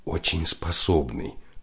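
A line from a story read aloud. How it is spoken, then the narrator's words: Female former classmate whispering. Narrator (Russian): шепнула бывшая сокурсница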